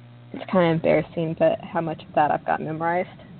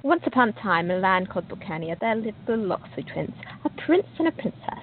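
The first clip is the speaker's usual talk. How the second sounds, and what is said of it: Put-on British accent reading aloud. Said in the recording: “read it in a British accent. It's always fun to read your book in a different accent.”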